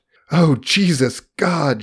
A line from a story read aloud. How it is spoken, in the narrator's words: she gasped